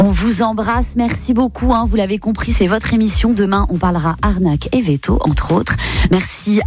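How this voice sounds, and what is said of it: Usual voice. Nothing is said of it.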